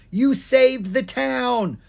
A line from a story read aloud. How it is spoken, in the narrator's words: A dwarf with a red beard down to his feet yelled to Ken